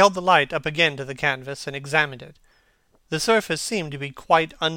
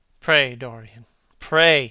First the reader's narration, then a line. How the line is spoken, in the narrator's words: he murmured